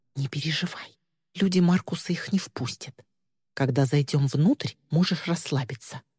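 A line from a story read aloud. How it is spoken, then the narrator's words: Quiet. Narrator (Russian): Мира тихонько сказала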